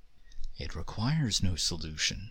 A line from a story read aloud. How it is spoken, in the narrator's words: Nazin said softly